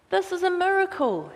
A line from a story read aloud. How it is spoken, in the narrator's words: exclaimed